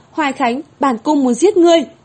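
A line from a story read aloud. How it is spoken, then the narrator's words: Crying, screaming in pain. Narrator (Vietnamese): Trong đau đớn, nhị công chúa oa một tiếng khóc lên, thét to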